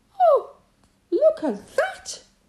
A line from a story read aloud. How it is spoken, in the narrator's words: she cried